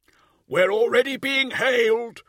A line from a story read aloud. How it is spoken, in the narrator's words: the Master of Vox Operators called out